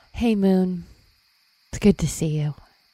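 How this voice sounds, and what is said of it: Whispering. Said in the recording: “Is someone whispering to the moon?”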